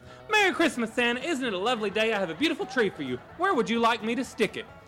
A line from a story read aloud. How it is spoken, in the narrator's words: the angel said very cheerfully and quite annoyingly